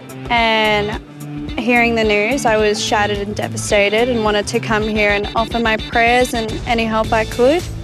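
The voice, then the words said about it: Australian accent. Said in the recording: “I don't know if you recognize the accent. Of course, it's from our brothers and sisters down under”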